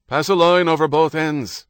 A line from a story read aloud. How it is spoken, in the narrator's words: shouted